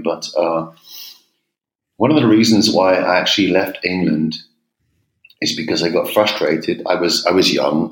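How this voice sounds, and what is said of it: English accent. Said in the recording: “you can probably hear from my accent I'm English ... I worked several years in America too, so my English has gone a bit, my accent's down the drain”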